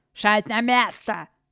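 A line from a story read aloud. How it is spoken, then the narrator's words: Monstrous woman barking. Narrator (Russian): рявкнула монструозная служанка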